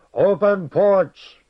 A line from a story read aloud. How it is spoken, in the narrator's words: the master's roar